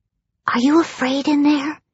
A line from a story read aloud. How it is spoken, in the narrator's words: she said softly